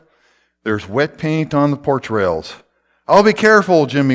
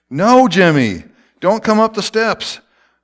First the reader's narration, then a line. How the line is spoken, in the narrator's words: Aretha shouted